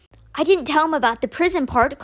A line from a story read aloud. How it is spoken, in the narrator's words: Constance said with an exasperated sigh